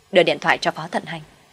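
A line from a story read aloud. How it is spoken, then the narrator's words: Cold firm command. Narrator (Vietnamese): kiên quyết, không nhiều lời lạnh lùng ra lệnh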